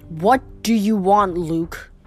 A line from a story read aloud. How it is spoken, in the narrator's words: growled